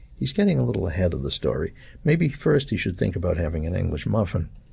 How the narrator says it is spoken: I murmured

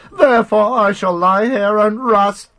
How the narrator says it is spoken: cried

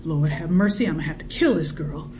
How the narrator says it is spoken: Emmeline could not help muttering

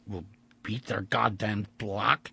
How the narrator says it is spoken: he grunted

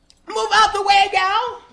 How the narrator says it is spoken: the wrangler gunman yelled

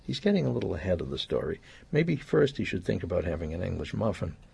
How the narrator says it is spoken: I murmured

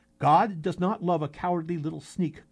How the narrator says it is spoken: Koshe said

